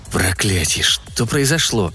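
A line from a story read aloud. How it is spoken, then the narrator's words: Whisper in ear. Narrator (Russian): Кристал прошептала прямо ему на ухо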